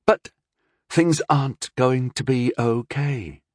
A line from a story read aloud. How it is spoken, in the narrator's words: Rondell said evenly